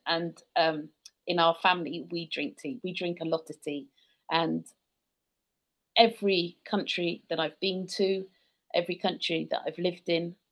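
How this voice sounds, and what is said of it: British accent. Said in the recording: “I'm British. You probably tell from my accent.”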